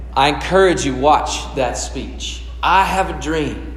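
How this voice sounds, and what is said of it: Martin Luther King impression. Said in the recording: “That was my impression.”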